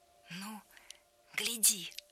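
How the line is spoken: Whisper. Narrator (Russian): прошептал

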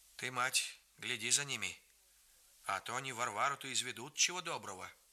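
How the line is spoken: Quiet old man. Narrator (Russian): Дед тихо проговорил

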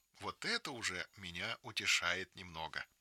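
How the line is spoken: Plain. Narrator (Russian): говорит Анна Ивановна

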